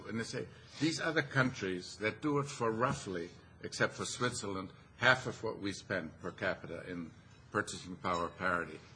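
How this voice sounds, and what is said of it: Foreign accent. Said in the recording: “as you can tell by my accent, just immigrated and got to the U.S.”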